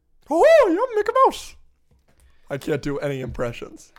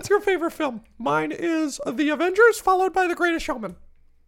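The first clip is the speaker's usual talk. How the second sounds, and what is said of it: High cartoonish imitation of another person. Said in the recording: “Is this your impression of me? ... this is how you sound. ... What am I, Mickey Mouse?”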